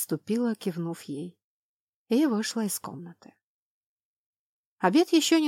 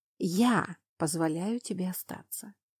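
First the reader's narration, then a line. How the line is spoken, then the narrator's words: Sighing. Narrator (Russian): вздохнула я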